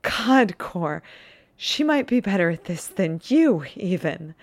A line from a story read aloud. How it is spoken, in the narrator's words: Sean laughs breathlessly and a little hysterically, says